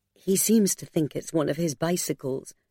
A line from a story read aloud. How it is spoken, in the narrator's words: Margaret murmured to Mercy with a smile